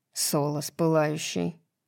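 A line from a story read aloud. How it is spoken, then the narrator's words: Mutter. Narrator (Russian): пробормотал Баксиан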